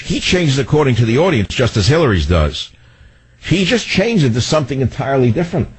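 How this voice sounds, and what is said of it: Heavy accent. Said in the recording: “I have a heavy accent myself, but it generally doesn't change”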